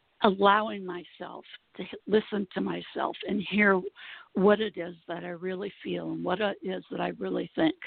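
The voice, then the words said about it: Hoarse voice. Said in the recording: “I've been having a problem with my voice, and I have for several years ... today it's particularly hoarse”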